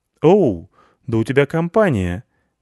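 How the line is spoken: Cheerful. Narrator (Russian): весело сказала Лайса

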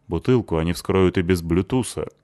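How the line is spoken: Grumbling. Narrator (Russian): проворчала Лайса

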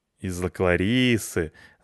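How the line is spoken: Laughing. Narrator (Russian): засмеялся Петрович

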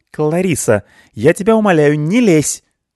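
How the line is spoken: Sharp rebuke. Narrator (Russian): прикрикнула на нее Элина

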